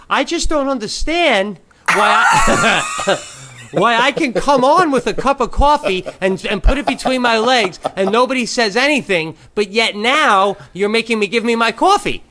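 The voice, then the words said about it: High-pitched falsetto voice. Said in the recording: “I go into a high falsetto right away... I'd say really high like that”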